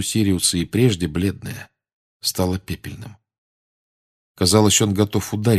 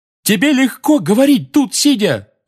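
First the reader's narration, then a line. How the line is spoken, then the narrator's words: Roar. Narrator (Russian): взревел Фред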